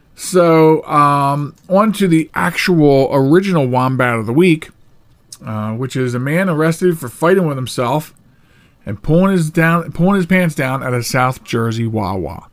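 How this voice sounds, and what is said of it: Worn-out, tired voice. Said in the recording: “my voice is worn out”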